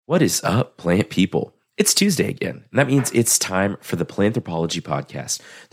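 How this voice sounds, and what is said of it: Deep, congested voice. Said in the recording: “my voice sounds a little bit weird and deep and alluring, more than usual, it's because I'm trying to get over a head cold”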